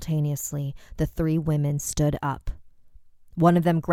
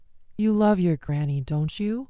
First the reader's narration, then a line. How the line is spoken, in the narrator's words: she asked